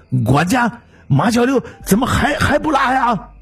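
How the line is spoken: Loud shout. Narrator (Chinese): 大声的喊

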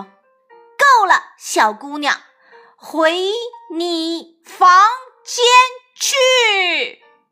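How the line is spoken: Mother speaking loudly. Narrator (Chinese): 妈妈大声对艾米说

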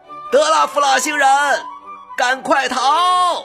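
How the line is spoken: Shouting. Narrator (Chinese): 又有人喊

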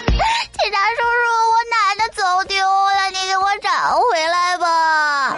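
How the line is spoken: Crying child pleading. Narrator (Chinese): 萌娃哭着求助警察

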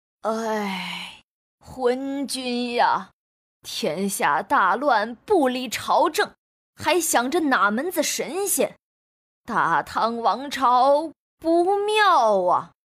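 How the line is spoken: Long despairing sigh. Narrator (Chinese): 莫名其妙，仰天长叹

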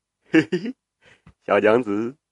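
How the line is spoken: Leering chuckle. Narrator (Chinese): 武德嘿嘿的笑着说

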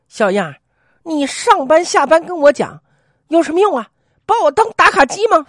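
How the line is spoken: Angry. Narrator (Chinese): 这位宅女愤怒的回短信说

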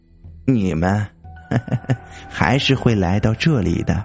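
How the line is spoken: Old woman, soft, smiling. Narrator (Chinese): 老太太脸上浮出一丝笑容，轻轻的说道

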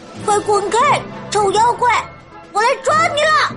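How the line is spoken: Shouting. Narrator (Chinese): 我也喊道

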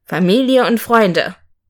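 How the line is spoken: Solemn voice. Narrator (German): sagte mit feierlicher Stimme

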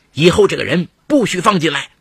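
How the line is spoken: Stern scolding. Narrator (Chinese): 他厉声呵斥保姆

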